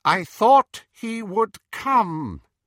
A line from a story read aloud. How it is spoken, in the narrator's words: said Voldemort in his high, clear voice